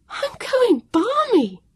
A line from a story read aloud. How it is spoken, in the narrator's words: she cried out